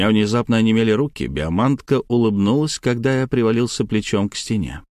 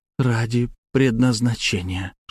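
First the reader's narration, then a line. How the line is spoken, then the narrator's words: Whispered. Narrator (Russian): шепнула мне монахиня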